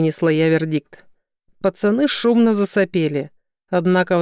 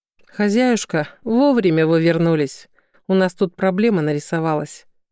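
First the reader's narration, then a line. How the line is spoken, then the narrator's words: Grim announcement, nanny. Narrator (Russian): мрачно объявила няня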